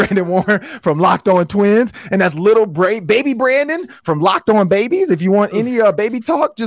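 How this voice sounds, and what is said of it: Usual voice. Nothing is said of it.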